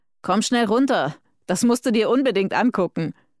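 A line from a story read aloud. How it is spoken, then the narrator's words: Uncle calling upward. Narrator (German): ihr Onkel Martin … rief zu ihr hoch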